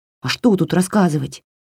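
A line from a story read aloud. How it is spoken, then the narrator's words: Grumbled. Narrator (Russian): буркнула Васька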